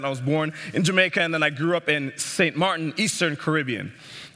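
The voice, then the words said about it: Caribbean-accented English. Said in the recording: “I grew up in the Caribbean, as you can tell by my accent”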